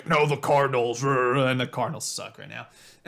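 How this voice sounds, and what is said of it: Imitates another person's voice. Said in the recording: “that was my impression of Ronnie ... It was pretty far off”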